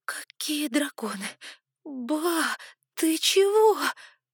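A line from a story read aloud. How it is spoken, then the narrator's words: Astonished exhale. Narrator (Russian): Выдохнула я изумленно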